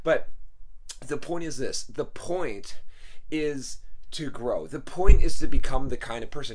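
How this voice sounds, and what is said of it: Hoarse, fading voice. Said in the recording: “I'm losing my voice, by the way. I'm sure some of you have noticed already.”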